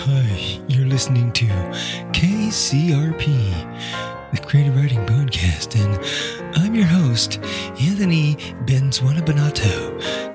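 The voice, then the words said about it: Public radio host voice. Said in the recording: “I'm going to do my best public radio voice right now ... So here's my public radio voice.”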